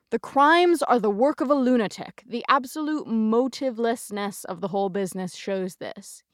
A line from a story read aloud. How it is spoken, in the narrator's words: he boomed